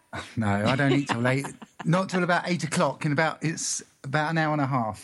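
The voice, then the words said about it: English accent. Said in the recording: “You're in England? ... I am. Did you tell by my accent? ... Yeah, absolutely.”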